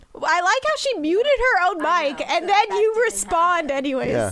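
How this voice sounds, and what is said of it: Usual voice. Nothing is said of it.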